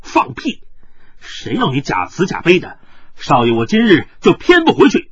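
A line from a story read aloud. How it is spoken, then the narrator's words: Angry. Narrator (Chinese): 云峥怒道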